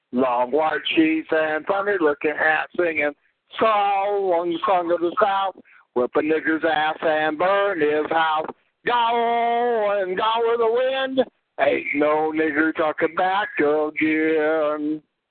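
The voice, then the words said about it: Southern Middle Tennessee accent. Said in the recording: “That's southern Middle Tennessee. That's a southern Middle Tennessee accent here, sort of like around Pulaski, Tennessee.”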